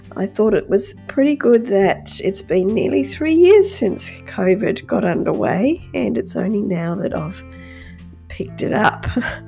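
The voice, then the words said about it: Croaky, hoarse voice. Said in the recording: “My voice is still pretty croaky, and yes, I have tested positive to COVID ... with my voice as it is”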